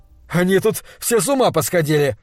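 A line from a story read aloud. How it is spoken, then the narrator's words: Nervous trembling laugh. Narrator (Russian): сказал Лонни, и рассмеялся нервным дрожащим смехом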